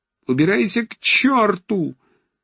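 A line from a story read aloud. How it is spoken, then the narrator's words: Shrill shout. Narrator (Russian): визгливо закричал на него Ромашов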